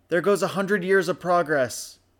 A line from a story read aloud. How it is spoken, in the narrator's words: Fia shouted over the high winds